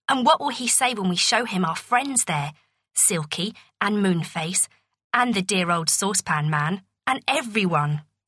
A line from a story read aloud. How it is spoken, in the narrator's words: said Beth